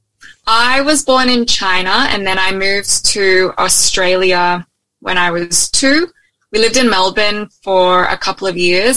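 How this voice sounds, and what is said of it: Australian accent with American twang. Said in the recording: “You kind of got an Aussie accent ... but you've got an American twang.”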